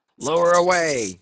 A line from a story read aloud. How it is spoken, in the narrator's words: he cried